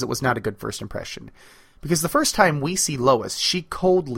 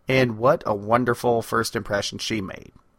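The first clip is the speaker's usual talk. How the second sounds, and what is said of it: Sarcastic tone. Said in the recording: “he said sarcastically”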